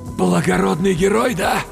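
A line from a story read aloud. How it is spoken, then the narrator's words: Forced out. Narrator (Russian): выдавил я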